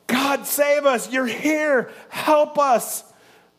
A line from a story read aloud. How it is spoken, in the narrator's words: you yell